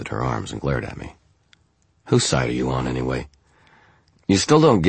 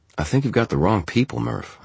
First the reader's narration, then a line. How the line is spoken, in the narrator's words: I said